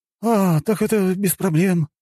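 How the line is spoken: Breathed out. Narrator (Russian): выдохнул Фипче

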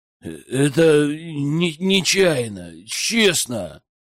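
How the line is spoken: Mumbling. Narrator (Russian): промямлила она

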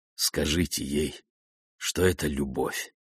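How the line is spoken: Russian man muttering. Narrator (Russian): пробормотал русский

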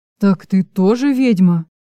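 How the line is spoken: Frightened blurt. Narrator (Russian): Выпалил испуганно Чарослав

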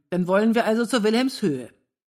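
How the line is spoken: Calling out. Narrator (German): rief Wilhelm

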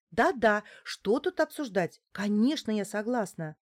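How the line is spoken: Eager exclamation. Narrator (Russian): воскликнула Неделькина

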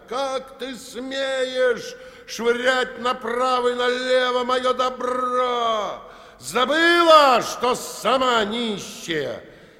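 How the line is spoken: Furious shouting. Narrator (Russian): Петр багровел от злости и кричал

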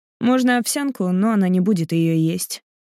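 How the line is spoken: Calm reply. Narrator (Russian): спокойно отвечает Платон

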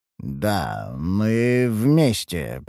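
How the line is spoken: Muttered. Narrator (Russian): пробормотал я

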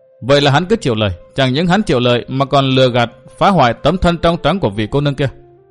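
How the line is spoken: Young woman cold reply. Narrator (Vietnamese): Thiếu nữ cung trang lạnh lùng đáp

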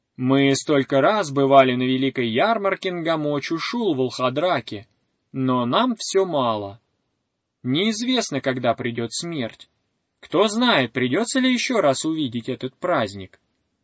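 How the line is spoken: Loud talking. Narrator (Russian): Они громко говорили

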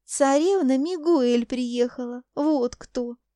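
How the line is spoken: Laughing. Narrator (Russian): Смеясь, проговорила

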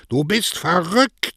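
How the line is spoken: Shouting. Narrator (German): schrie Don Cosme

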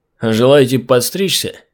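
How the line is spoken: Lazy drawl through teeth. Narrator (Russian): лениво процедил лысый

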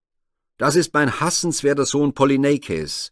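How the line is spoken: Angry exclamation. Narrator (German): rief Ödipus zürnend aus

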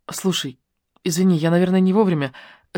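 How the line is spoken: Remorseful mumble. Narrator (Russian): с раскаянием пробормотала Алена

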